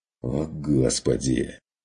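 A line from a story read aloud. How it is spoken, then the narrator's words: Irritated sigh. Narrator (Russian): Вздохнул Стрик раздраженно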